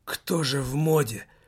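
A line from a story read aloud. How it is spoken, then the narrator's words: Strained groan. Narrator (Russian): со стоном выдавил из себя Лассаль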